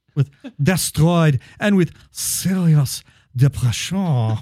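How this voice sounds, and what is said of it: Put-on French accent. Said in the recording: “you have to do that with a French accent.”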